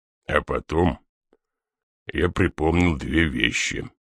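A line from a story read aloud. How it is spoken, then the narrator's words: Quiet. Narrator (Russian): негромко продолжал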